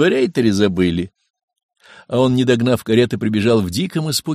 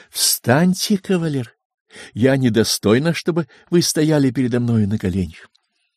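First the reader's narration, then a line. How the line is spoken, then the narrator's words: Stately, gentle. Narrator (Russian): Варвара Ивановна величаво ласково сказала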